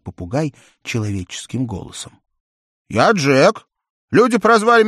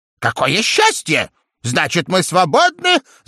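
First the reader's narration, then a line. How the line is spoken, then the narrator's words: Joyful shouting parrot. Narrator (Russian): закричал попугай и от радости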